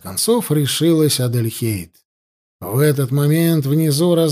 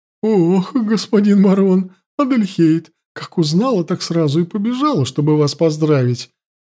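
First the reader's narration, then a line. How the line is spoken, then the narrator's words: Joyful. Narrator (Russian): радостно сказала она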